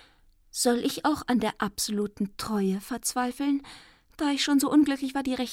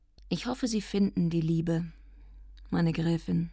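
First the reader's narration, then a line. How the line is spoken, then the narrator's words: Calm. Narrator (German): sagte ruhig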